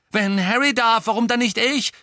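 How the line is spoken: Exclaimed. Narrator (German): rief Ron

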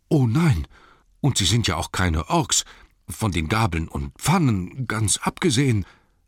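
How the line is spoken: Anxious. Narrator (German): sagte ängstlich

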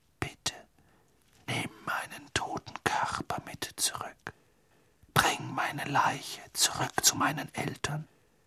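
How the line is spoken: Whisper. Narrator (German): flüsterte die Gestalt Cedrics

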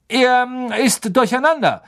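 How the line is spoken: Calling out. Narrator (German): rief Lupin

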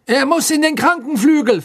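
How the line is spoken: Loud announcement. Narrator (German): verkündete Fudge laut

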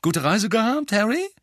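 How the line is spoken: Called out. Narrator (German): rief Bill

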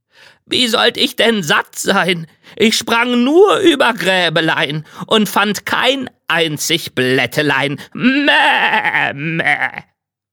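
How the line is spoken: Goat calling out. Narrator (German): die Ziege rief

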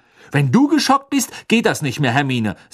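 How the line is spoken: Said angrily. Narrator (German): sagte Ron wütend

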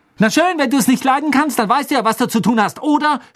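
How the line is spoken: Shouting. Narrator (German): schrie Hermine

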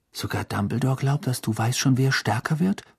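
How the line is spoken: Whispered. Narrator (German): flüsterte Ron

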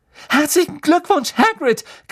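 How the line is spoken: Shrieking. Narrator (German): kreischte Hermine

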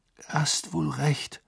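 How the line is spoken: Murmured. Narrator (German): murmelte Harry

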